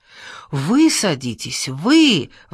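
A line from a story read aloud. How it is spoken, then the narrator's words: Exclamation. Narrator (Russian): воскликнул папа Гиндин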